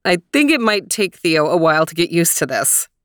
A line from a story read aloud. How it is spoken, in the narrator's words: laughed Daddy